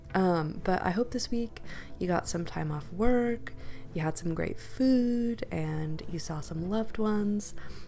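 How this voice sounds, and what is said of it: Stuffy, congested sick voice. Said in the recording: “hear it in my voice, but I've been sick this past week ... to see if I can get my voice to sound a bit more normal ... I sound a little stuffy.”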